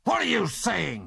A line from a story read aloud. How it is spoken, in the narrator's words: snarled